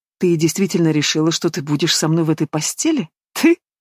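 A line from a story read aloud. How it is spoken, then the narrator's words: Mocking laughter. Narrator (Russian): Герман издевательски расхохотался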